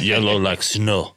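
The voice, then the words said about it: Fake Russian accent. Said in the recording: “Oh, a Russian just walked in ... a master at accents. That's not even his accent ... that's fake”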